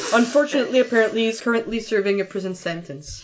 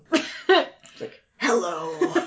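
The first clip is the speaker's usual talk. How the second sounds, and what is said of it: Very deep Batman-style voice. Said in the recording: “he should have like a really deep voice though ... That was my impression of Batman.”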